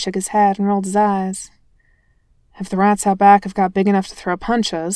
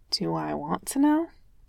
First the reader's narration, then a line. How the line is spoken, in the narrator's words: Jasper asked quietly